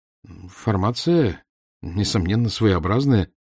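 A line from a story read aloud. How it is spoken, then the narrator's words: Hesitant. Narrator (Russian): неуверенно начал я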